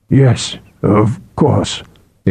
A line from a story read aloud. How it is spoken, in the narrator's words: Aethor muttered